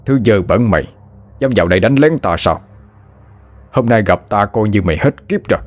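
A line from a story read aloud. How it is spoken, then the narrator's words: Shout. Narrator (Vietnamese): thầy Quân quát lên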